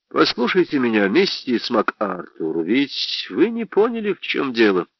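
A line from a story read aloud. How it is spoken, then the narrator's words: Gentle speech. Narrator (Russian): сказал я мягко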